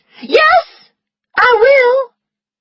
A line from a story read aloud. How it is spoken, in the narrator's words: Scarlet heard herself shout